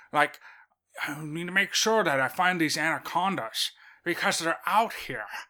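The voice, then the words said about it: Deliberately bad put-on accent. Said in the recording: “I'm even doing a terrible version of his terrible accent”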